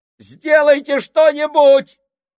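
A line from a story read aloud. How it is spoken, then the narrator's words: Impatient shout. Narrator (Russian): крикнул Сольц, устав бездействовать и смотреть на это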